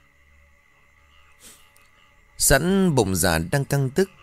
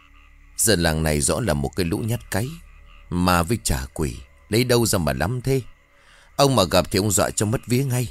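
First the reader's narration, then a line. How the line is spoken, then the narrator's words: Contemptuous muttering. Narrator (Vietnamese): khinh khỉnh, Kha lẩm bẩm nói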